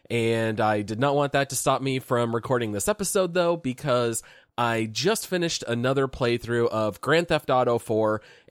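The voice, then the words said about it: Sick, altered-sounding voice. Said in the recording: “my voice sounds a little bit different. I have actually been quite sick”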